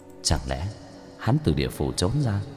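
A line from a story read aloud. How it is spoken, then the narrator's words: Muttering. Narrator (Vietnamese): Thôi Phủ Quân lẩm bẩm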